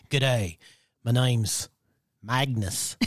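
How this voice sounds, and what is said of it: Put-on Australian country accent. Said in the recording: “he'll speak with a country accent, but Australian country accent.”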